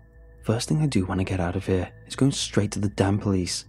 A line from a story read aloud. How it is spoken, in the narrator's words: I growled